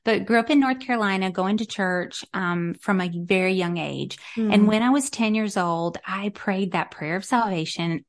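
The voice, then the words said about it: Slight Southern American accent. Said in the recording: “Grew up in North Carolina, hence the accent. So yeah. I have a little Southern accent,”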